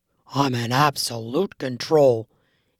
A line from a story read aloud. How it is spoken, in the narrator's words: he insisted in a growl